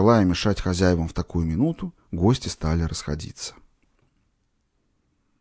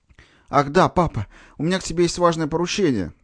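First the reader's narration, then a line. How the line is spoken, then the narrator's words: Hurried, mouth full. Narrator (Russian): торопливо пережевывая пирог, продолжал Митя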